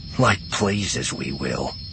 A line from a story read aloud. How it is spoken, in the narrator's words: Wedge muttered under his breath